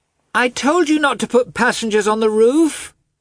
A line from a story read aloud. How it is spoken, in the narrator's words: the girl shouted in English